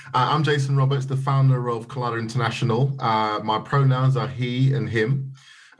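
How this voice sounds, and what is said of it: Strong British accent. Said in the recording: “a very British accent”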